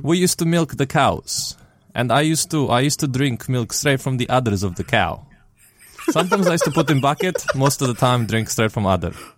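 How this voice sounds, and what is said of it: Put-on Russian accent. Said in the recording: “with a Russian accent for some reason ... for the rest of the episode, we have to speak with Russian accents”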